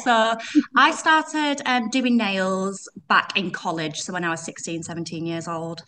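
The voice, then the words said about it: Yorkshire accent. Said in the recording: “you probably pick it up from my accent. I've got Yorkshire accent.”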